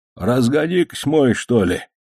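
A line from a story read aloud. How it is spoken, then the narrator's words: Sleepy old man's grumble. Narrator (Russian): Снова зевнув, проворчал старик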